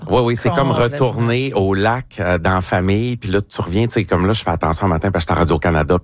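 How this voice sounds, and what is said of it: Saguenay–Lac-Saint-Jean Québécois French accent. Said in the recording (French): “L'accent du Saguenay-Lac-Saint-Jean, je trouve, sort davantage lorsque vous faites votre balado... en onde ou même en ce moment.”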